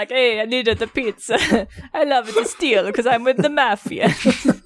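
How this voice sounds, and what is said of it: Mock Italian accent. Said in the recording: “they all just speak in Italian ... accent”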